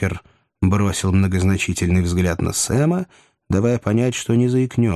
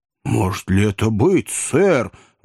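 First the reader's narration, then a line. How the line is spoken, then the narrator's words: Amazed exclamation. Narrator (Russian): воскликнул Сэм, попятившись от изумления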